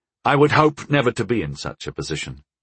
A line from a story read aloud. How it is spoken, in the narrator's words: I said calmly